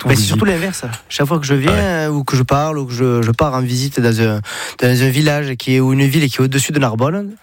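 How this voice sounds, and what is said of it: Sing-song southern French accent. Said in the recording (French): “vous venez pas du nord de la France ... avec l'accent, j'ai le package ... c'est chantant ça ... Toi, t'es du sud.”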